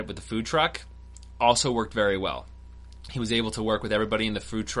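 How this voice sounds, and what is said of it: Usual voice. Nothing is said of it.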